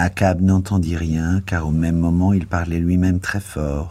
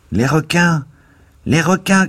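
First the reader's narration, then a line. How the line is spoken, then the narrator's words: Shouting from window. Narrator (French): cria une voix à la fenêtre basse de la cabine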